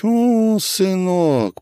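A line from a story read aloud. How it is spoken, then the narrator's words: Drawn-out, smiling. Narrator (Russian): протянула Семенова, улыбнувшись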